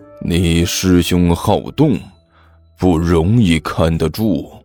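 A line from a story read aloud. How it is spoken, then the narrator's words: Through gritted teeth. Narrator (Chinese): 小师妹，同时咬牙切齿地说道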